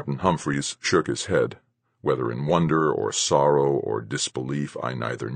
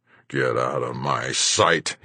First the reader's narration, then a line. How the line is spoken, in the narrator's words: he snarled